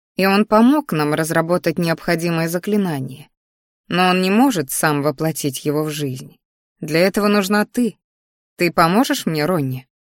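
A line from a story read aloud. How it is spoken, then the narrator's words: Quiet. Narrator (Russian): тихо сказала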